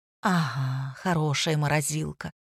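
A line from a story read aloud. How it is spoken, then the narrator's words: Sad. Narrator (Russian): грустно кивнула Лина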